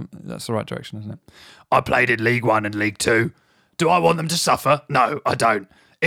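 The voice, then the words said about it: Imitates another person's voice. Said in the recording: “going to do an impression of him now ... Yeah, it's good.”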